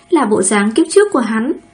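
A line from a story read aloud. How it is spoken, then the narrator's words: Angry muttered curse. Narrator (Vietnamese): Lãnh Thanh Nghiên không khỏi thấp rủa một tiếng, tức giận nói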